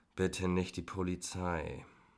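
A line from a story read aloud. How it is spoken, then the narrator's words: Soft groan. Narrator (German): stöhnte leise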